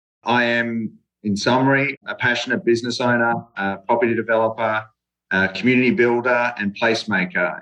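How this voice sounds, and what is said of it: Australian accent. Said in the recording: “as you can tell from my accent, I'm not from around here ... here from Australia”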